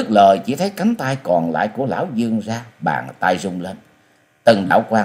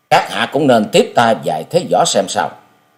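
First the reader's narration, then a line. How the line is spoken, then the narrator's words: Cold voice. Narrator (Vietnamese): Giọng của chàng lạnh lùng nói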